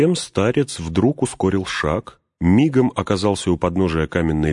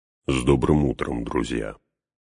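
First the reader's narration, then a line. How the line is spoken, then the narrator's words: Quiet. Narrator (Russian): негромко проговорил он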